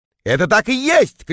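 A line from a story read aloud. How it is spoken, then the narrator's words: Shouted. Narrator (Russian): крикнул я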